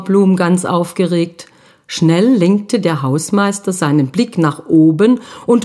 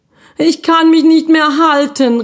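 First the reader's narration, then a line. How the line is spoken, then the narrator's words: Desperate boy calling down. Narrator (German): rief der Junge ganz verzweifelt nach unten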